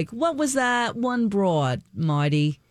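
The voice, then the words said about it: Thick New York accent. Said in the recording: “he had this thick accent ... He was from New York.”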